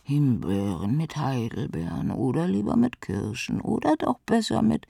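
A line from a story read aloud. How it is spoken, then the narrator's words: Dreamy smiling murmur. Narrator (German): lächelte sie fein und murmelte im Traum vor sich hin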